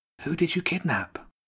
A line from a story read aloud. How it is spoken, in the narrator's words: James whispered to Jenny